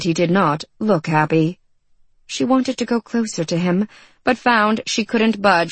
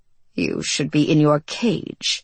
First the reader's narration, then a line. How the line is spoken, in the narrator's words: he growled